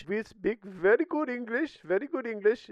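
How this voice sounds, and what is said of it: Put-on Indian accent. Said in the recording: “quit making fun of the Indian people”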